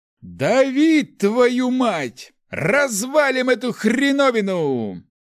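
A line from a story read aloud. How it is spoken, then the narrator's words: Yelling. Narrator (Russian): Руди орал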